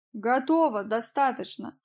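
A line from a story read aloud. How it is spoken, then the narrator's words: Exclaim. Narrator (Russian): воскликнул Джек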